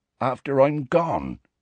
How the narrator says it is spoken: said Hagrid croakily

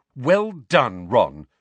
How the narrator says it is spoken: snapped Hermione

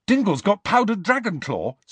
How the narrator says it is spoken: said Ron eagerly

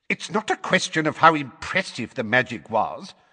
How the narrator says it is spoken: said Fudge in a testy voice

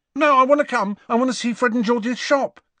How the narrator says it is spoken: said Ron hastily

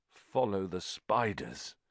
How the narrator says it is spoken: said Ron weakly

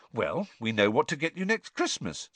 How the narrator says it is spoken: said Hermione brightly

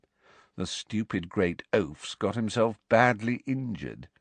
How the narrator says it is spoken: said Malfoy in an undertone, so that only Harry could hear him

